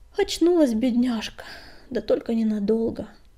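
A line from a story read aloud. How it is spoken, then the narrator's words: Sighing woman. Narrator (Russian): вздохнула целительница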